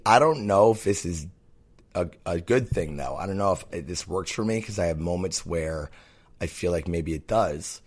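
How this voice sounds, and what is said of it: Raspy, rough voice. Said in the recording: “my voice is all crazy ... I don't think I'm sick. I think it's raspy.”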